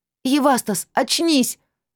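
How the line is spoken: Shouting in someone's face. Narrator (Russian): прокричала я в его лицо

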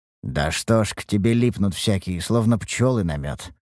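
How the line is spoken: Quiet muttering. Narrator (Russian): пробормотал Харан негромко

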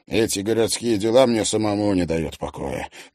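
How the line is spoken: Grumbling. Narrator (Russian): буркнул Макарский

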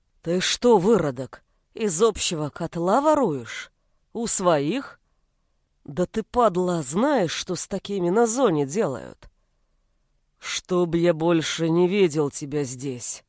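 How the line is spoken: Low bass, disgusted. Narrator (Russian): Низким басом выдавил Волков, а лицо его передернулось в брезгливой гримасе

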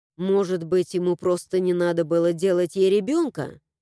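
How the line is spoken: Grumbling mutter. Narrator (Russian): буркнула я

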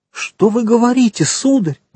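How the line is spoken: Exclaiming. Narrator (Russian): воскликнула госпожа де Вильфор

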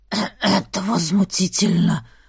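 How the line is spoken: Wheezing, stunned. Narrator (Russian): прохрипел Сейлорим, когда к нему вернулся дар речи

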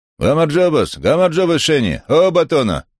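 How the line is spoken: Cheerful shouting into phone, laughing. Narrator (Russian): кричал он в трубку и весело хохотал

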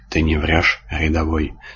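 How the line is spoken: Driver hissing through teeth. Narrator (Russian): сквозь зубы процедил таксист

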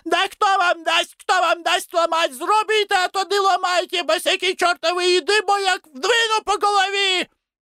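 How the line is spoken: Shouting. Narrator (Russian): закричала

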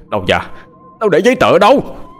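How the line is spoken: Roaring corpse. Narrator (Vietnamese): một cái xác chết vô hồn, lạnh lẽo, với cặp mắt trợn trừng đầy ai quán, mà gầm lên

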